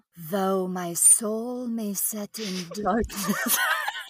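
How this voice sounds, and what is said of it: Spooky, sultry reading voice. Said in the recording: “I'm going to read it in a spooky voice. ... a spooky, okay. Sexy voice.”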